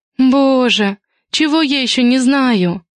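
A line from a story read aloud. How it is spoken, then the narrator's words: Moaning. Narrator (Russian): застонала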